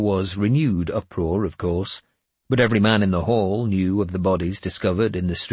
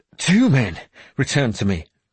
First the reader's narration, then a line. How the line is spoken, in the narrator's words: Grimbald said desperately